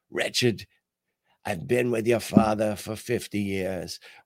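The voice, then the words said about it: Imitated Irish accent of mother. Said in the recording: “my mother had this Irish accent where she said things like Atlantic Beach or Atlantic Ocean. And whenever she said my name, it sounded too close for comfort to Wretched.”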